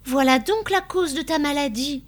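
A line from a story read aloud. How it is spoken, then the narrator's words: Exclaimed. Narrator (French): s'écria Constance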